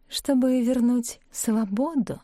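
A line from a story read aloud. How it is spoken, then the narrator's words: Ingratiating, insinuating. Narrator (Russian): вкрадчиво продолжала Элеонора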